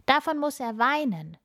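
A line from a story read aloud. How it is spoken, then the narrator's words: Boy calling. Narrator (German): ruft ein Junge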